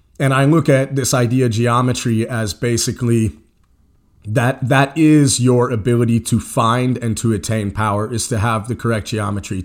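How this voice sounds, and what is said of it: Scratchy voice with a head cold. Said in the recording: “I'm fighting a little bit of a spring head cold... my voice is a little scratchy or if I sniff a little bit”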